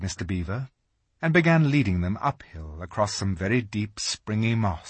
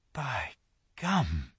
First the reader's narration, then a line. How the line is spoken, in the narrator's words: whispered Peter to Susan